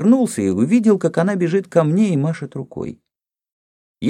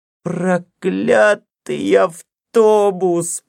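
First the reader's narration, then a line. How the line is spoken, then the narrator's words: Moan. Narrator (Russian): простонала она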